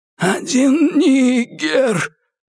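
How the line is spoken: Groaning. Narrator (Russian): простонал Уоррен

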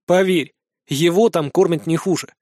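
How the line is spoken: Smirking. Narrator (Russian): хмыкнул я

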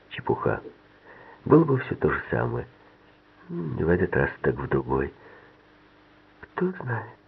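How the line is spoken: Quiet. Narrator (Russian): тихо сказала Ливи

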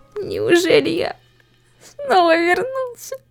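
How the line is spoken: Anguished moan. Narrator (Russian): Он простонал это, понимая, что его опять затягивает в петлю закольцованного времени, уже принесшую столько страданий

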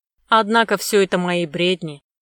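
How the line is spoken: Gloomy snort, hunchback. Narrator (Russian): хмыкнул мрачно Горбун

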